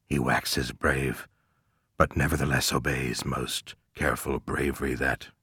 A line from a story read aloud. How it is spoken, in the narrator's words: murmured Ahab